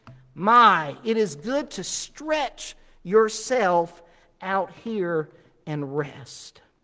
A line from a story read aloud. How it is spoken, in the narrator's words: the native exclaimed in his own language